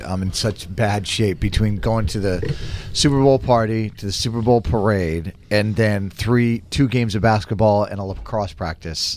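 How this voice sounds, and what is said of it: Worn-out, strained voice. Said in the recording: “I'm sorry about my voice again today ... Like, I can't talk anymore.”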